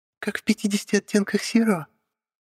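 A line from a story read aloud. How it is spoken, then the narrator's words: Squeaky. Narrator (Russian): пискнули со стороны окна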